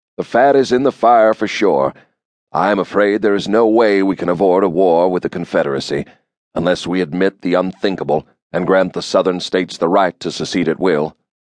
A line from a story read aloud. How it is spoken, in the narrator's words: he said in his flat nasal accent